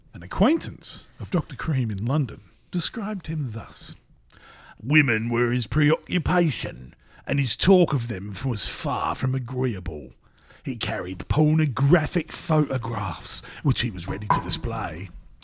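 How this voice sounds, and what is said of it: Put-on English accent. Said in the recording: “in my English accent”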